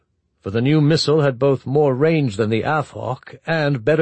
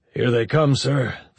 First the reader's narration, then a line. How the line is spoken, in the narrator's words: the ops officer said grimly